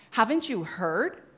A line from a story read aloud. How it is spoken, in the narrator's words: someone asked